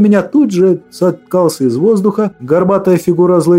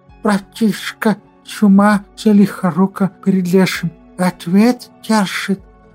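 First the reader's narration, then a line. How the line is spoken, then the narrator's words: Lisping voice inside head. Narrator (Russian): послышался шепелявый говорок в моей голове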